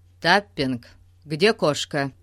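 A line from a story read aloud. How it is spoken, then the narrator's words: Steely question. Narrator (Russian): спросил инспектор тем же стальным голосом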